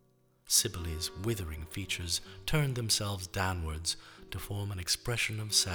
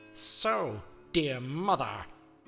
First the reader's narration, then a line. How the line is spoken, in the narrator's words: the real Midas roared